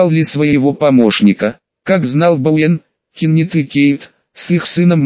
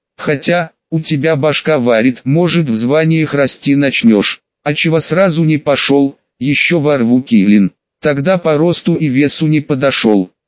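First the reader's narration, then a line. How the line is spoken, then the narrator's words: Plain. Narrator (Russian): ответил Бауэн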